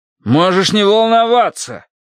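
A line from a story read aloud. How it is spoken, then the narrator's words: Loud insistent shout. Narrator (Russian): крикнул в ответ Динов папка, словно чем громче он кричал, тем правдивее были его слова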